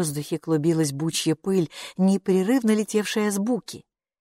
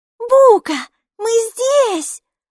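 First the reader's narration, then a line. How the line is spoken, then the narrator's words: Shouting. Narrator (Russian): закричала Майки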